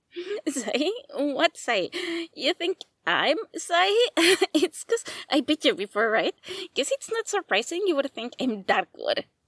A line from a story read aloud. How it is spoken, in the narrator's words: Shindo laughs nervously at his questioning and replies